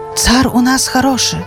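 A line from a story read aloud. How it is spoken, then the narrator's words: Hushed whispering. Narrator (Belarusian): Прыціхлі тлустыя вельможы, шапталі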